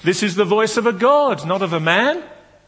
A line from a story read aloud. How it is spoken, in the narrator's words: They shouted